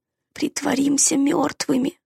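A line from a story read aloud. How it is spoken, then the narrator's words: Hoarse voice. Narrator (Russian): хрипло сказал Дак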